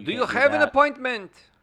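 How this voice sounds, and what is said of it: Bad attempted Indian accent. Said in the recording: “Not a great accent. ... That was bad. ... like a Jafar ... an Indian accent ... that's how bad it was”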